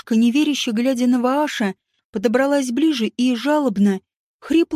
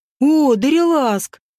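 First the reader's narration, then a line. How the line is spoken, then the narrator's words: Joyful exclamation. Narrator (Russian): обрадованно воскликнул он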